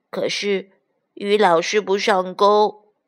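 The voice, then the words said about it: Quiet, complaining voice. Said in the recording (Chinese): “小声的抱怨说”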